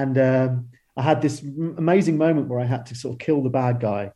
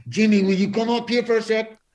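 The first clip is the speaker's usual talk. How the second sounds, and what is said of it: Imitates another person's voice, accented. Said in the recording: “Excuse the accent, by the way.”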